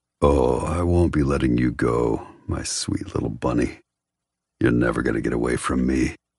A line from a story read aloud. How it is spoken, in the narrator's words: His voice low and dark, Aiden says